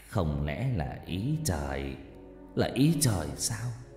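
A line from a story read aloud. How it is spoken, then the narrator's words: Sad voice. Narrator (Vietnamese): Bố nó nói với giọng u buồn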